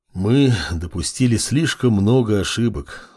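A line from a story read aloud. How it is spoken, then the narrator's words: Sighing dark deity. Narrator (Russian): вздохнуло темное божество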